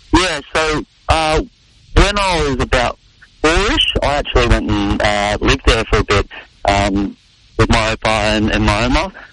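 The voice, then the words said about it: Australian accent. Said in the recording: “Aussie accent”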